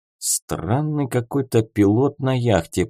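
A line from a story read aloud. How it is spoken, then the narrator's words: Muttering. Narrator (Russian): пробормотал Симон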